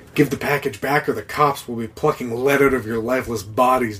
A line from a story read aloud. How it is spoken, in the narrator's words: Dog growled